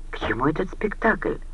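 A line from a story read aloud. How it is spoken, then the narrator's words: Whisper. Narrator (Russian): прошептал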